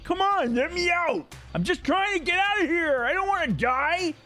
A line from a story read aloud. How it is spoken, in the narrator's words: He's yelling at people